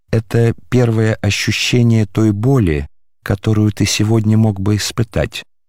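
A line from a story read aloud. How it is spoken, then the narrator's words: Plain. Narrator (Russian): сказал Мельхиор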